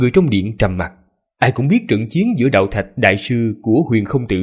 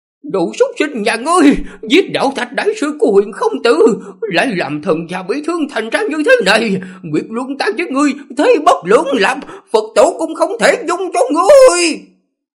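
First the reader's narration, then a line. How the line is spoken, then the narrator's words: Hoarse pained fierce scream. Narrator (Vietnamese): Bà ta hung hăng, giọng nói khàn khàn khó nghe, đau đớn hét lên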